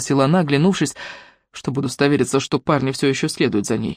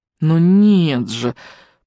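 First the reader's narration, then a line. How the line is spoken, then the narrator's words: Drawn-out drawl. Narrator (Russian): протянула Виолетта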